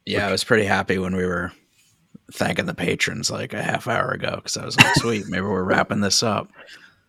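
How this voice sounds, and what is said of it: Worn-out, strained voice. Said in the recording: “my voice is about at it ... yes, I can tell.”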